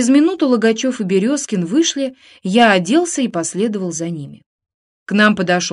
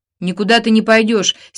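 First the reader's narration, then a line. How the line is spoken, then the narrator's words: Angry shout. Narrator (Russian): сердито прикрикнул я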